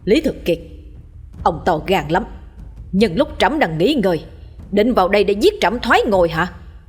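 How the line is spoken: Loud angry shout. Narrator (Vietnamese): nhà vua quát lớn

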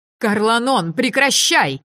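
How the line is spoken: Shouted. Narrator (Russian): закричала Авена

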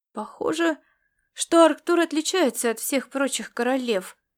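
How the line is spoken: Uncertain, filling the silence. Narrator (Russian): неуверенно проговорил Ласло, чтобы только не молчать

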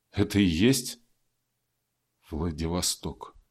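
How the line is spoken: Crushed, dejected boy. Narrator (Russian): убитым голосом уточнил мальчик

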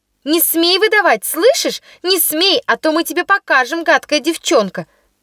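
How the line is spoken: Group shouting. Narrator (Russian): кричали они

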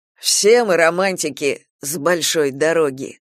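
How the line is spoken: Wry snort. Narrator (Russian): хмыкнул Ангел

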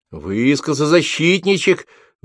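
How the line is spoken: Shouted out, young woman. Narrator (Russian): выкрикнула девушка

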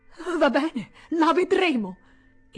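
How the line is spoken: Exclaimed. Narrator (Italian): esclamò

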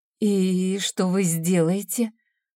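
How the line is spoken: Trembling question. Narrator (Russian): спросила дрожащим голосом

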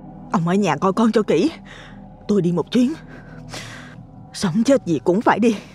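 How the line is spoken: Thick with fear, determined. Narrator (Vietnamese): Giọng nói càng đặc vì sợ hãi nhưng cũng đầy quyết tâm

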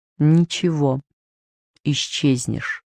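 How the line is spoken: Mother's surprisingly calm reply. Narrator (Russian): удивительно спокойно, совсем как тогда на пляже, ответила мама

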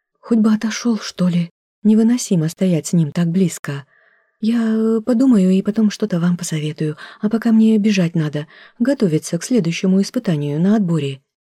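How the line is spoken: Hurried, too quiet, unfamiliar. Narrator (Russian): произнесла торопливо и слишком тихо, сама не узнавая себя

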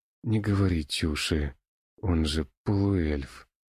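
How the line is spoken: Moaning. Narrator (Russian): простонал

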